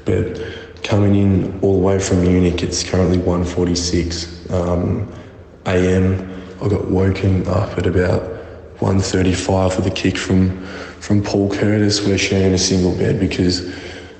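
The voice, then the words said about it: Hoarse, partly lost voice. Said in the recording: “I've lost my voice a little bit.”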